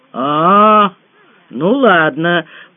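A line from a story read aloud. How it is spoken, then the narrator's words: Drawn-out doubtful boys. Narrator (Russian): протянули мальчишки недоверчиво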